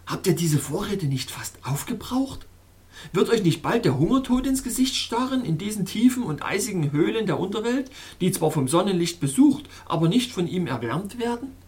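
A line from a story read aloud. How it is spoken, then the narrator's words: Calling out. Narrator (German): rief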